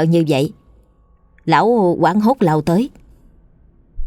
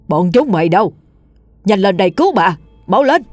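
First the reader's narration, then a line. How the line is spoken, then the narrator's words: Desperate old man screaming. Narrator (Vietnamese): Tiếng ông Chánh gào lên đầy tuyệt vọng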